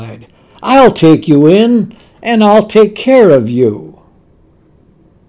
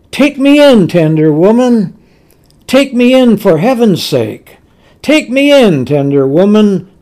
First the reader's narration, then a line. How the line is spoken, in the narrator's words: sighed the snake